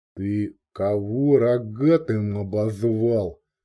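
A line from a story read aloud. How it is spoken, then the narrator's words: Lazy question. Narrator (Russian): лениво осведомился размякший от долгого сиденья в средстве от перхоти Дурич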